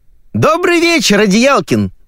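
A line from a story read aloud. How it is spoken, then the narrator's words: Woman shouting. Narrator (Russian): закричал женский голос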